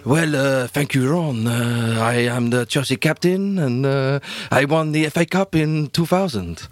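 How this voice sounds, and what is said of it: Generic put-on French accent. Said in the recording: “That's just a generic French accent ... It was a lot better ... It's just like a generic, like, sort of and then, French accent ... It was like David Ginola was in the room with us”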